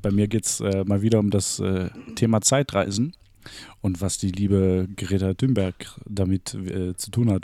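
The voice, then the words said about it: Put-on French accent. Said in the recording (German): “Ich weiß nicht, warum ich jetzt französischen Akzent mache.”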